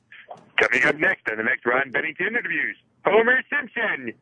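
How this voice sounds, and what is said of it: Cartoon character voice impression. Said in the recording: “Pretty good impression, huh? ... Not bad. ... That's a good impression. ... So he has one Homer Simpson.”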